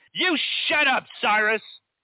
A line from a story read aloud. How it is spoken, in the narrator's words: he bellows